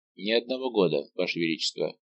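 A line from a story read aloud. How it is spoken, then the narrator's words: Cold young man. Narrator (Russian): холодно произнес молодой герцог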